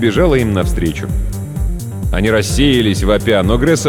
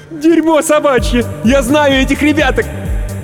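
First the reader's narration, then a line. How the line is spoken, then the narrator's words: Shouting. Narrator (Russian): Гресса прокричала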